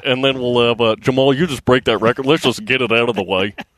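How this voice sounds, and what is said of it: Imitates another person's voice. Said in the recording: “That's the best impersonation that you do.”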